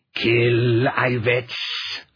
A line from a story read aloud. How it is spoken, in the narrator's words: the beast snarled